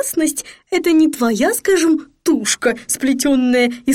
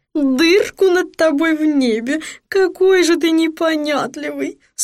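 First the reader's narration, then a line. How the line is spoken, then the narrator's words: Near moaning. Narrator (Russian): Сатофа почти стонала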